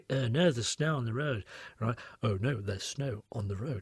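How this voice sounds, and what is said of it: Mimicked Hull accent. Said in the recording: “you're from Hull. I can tell straight away from that accent... in Hull people say things like”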